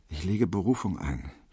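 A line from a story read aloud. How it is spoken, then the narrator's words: Murmuring to himself. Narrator (German): vor sich hin murmelte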